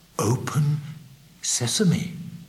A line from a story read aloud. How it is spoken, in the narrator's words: in a trembling voice, Ali Baba ... said softly